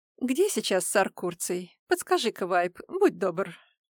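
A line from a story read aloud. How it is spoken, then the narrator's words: Gently asked. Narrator (Russian): ласково попросил Дорм Пули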